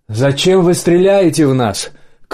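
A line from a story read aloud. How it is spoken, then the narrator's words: Shouting. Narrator (Russian): крикнул Ланс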